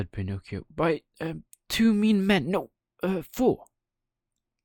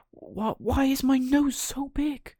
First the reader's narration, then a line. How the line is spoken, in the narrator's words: Pinocchio cried out